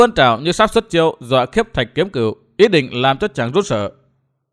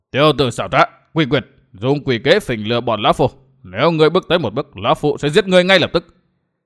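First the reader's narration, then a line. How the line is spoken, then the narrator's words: Angry shout. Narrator (Vietnamese): Miêu Sơn Nhất Quái giận dữ quát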